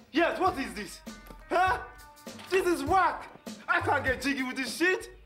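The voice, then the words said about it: Exaggerated put-on African accent, angry. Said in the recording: “the angry African man... angry African customer... an accent he was putting on?... Oh, I'm sure, yeah... I'm sure he's playing it up”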